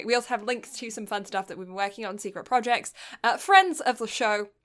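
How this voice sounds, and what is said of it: Mixed British-Canadian accent. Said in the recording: “a strange accent that is sometimes British, sometimes Canadian”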